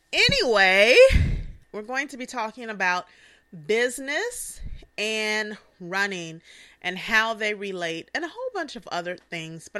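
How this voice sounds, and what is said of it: Breathless, out-of-breath speech. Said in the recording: “I'm a little out of breath right now.”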